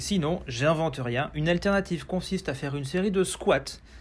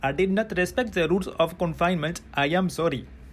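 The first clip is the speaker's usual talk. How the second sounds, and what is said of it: English with put-on Indian accent. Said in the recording (French): “Je vous le fais en VO avec l'accent.”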